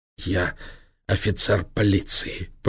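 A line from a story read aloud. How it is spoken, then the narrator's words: Hoarse wheeze. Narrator (Russian): прохрипел чекан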